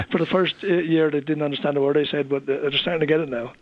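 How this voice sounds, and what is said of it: Irish Wexford accent. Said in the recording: “your Wexford accent”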